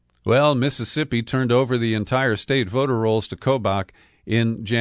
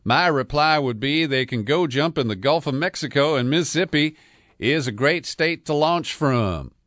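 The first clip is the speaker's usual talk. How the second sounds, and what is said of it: Mock Southern accent quoting Delbert Hoseman. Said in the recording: “I'm going to add a mock Southern accent just because I'm sure he's got one”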